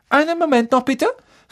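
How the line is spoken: Calling out. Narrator (German): rief sie

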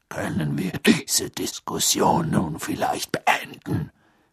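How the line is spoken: Growling. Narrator (German): knurrte Moody

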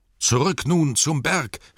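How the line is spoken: Calling out. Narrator (German): rief Thorin

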